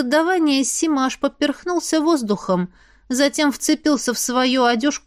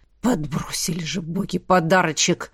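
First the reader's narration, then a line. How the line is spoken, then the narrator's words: Man grumbling under breath. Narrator (Russian): заворчал мужчина себе под нос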